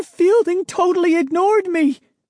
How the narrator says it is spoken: Sari cried, her face revealing her anger

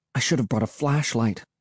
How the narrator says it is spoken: I murmured

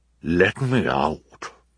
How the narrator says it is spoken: Olaf said, with a muffled chuckle

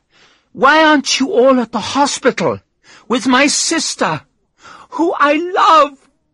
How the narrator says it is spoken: She screamed and started to cry

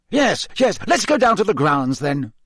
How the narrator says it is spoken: said Fudge impatiently

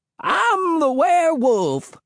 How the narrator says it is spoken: he shrieked

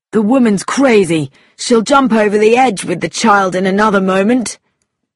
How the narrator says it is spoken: Tommy cried

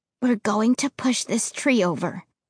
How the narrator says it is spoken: I whispered with so much confidence that I surprised myself

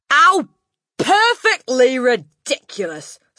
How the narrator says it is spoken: snorted the Trunchbull

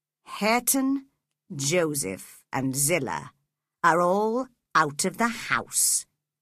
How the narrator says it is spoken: he said calmly

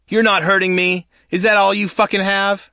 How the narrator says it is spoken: I'd shout back

